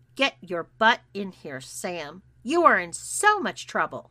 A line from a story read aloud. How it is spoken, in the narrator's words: barked my mom